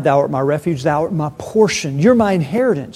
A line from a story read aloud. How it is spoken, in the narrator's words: He cried